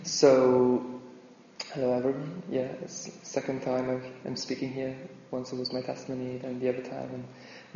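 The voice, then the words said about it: Longbenton Geordie accent. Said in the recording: “the guy from Longbenton with a Longbenton accent.”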